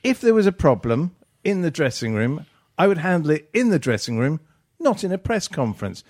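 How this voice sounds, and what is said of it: Posh voice. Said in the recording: “you just did it in that posh voice of yours”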